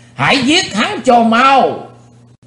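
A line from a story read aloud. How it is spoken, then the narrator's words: Crowd roaring in unison. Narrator (Vietnamese): Quần hùng đồng thanh gầm thét chấn động cả chân núi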